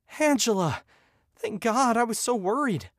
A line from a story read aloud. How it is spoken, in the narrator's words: I gasped for breath